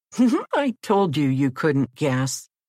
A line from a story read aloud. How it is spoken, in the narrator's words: giggled Jack